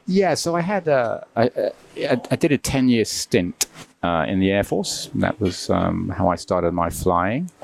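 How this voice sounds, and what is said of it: British accent. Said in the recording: “We can guess by the accent that we're talking about the Royal Air Force.”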